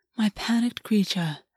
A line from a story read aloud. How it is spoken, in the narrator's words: August said, his voice smooth